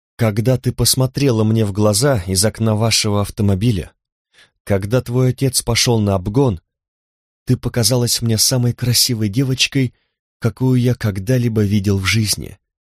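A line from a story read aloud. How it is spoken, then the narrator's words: Plain. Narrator (Russian): сказал он однажды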